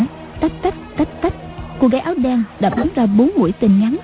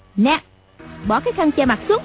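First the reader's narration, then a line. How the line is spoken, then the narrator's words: Girl snapping sharply. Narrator (Vietnamese): Cô gái quát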